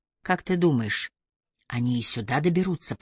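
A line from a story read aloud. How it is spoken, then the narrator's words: Whispered. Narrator (Russian): прошептала Джози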